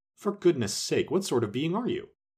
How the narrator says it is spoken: exclaimed

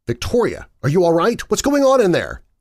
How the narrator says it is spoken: I asked urgently

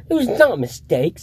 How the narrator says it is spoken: said Harry angrily

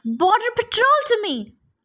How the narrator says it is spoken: One of the heroes shouted

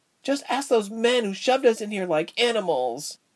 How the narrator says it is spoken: the frizzy-haired one cried out

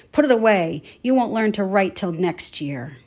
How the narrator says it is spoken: snarled

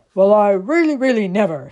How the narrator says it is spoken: said the large and growly bear

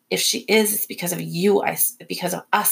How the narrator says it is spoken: I snapped

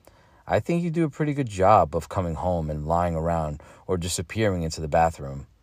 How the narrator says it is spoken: she says

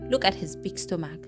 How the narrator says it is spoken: said, chuckling

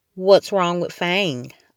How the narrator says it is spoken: asked

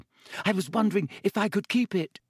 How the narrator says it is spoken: said breathlessly

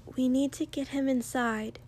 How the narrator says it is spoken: Ochako said quietly

